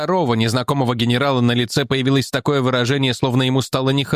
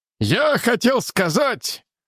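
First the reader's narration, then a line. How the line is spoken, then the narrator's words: General barking. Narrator (Russian): рявкнул неизвестный генерал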